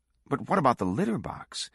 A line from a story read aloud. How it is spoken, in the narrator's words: exclaimed Daly, aghast at the idea of the filth